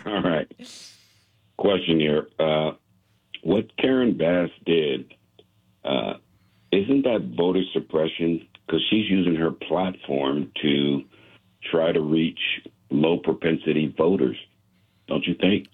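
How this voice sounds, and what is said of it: Good radio voice. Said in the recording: “You have an incredible radio voice ... you have a good voice for radio”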